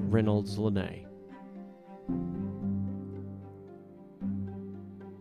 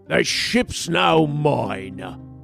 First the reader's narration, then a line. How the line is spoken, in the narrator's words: Gangplank roared loud enough to be heard over the driving gale